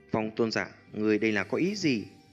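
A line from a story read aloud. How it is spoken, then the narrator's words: Faintly angry. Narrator (Vietnamese): Trong thanh âm của Lôi Tôn giả ẩn hiện chút tức giận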